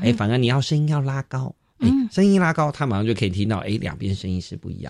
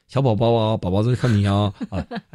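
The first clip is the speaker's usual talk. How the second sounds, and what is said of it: Deep magnetic dad voice. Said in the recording (Chinese): “有些爸爸讲话比较有磁性”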